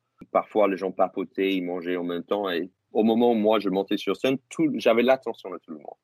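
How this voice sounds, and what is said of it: Foreign accent speaking French. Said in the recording (French): “j'arrive avec mon accent ... le fait d'avoir mon accent”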